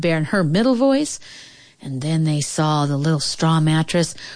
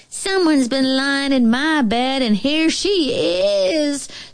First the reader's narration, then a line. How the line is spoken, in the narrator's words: squeaked the bear cub in the biggest voice he had